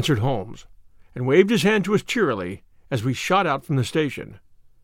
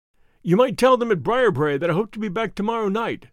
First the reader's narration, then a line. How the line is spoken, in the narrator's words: cried Phelps